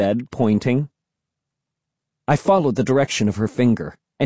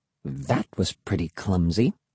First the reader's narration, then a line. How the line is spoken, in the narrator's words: Emily said softly